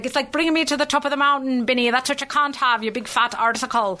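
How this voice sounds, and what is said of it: Irish accent like Lucky Charms leprechaun. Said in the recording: “I don't know what this accent is ... That was very good. You kind of sounded a little bit more like the leprechaun from the Lucky Charms.”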